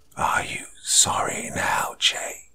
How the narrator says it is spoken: my wife demanded in a mocking tone, her voice no longer sweet, but deep and raspy

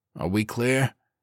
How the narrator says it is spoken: he asked hoarsely

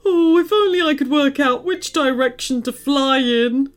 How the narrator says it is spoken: whined the flamingo

